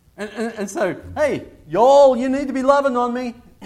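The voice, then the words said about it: Badly done put-on accent. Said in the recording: “that was a terrible accent.”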